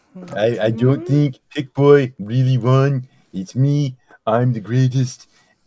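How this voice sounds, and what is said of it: Imitates another person's voice. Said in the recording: “This is a good Donald Trump impression.”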